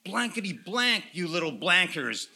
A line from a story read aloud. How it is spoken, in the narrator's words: yelled the hobos